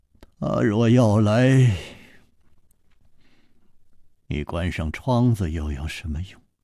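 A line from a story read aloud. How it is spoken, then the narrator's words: Sighing. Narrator (Chinese): 楚留香又叹道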